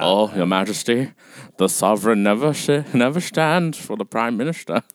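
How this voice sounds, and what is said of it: Impression of John Lithgow's Churchill. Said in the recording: “John Lithgow in On the Crown. He played Churchill ... your impersonation”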